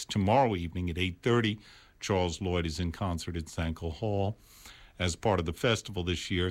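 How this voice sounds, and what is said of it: New York accent. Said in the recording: “Pardon my New York accent.”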